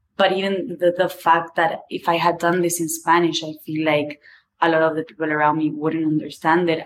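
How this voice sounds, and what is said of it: Strong non-native English accent. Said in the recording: “My English is shit. You can hear this... My accent is super strong”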